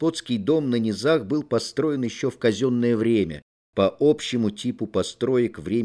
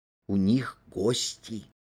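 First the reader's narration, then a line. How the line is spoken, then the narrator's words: Whispered declaration. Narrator (Russian): шепотом заявила она, как и Ганька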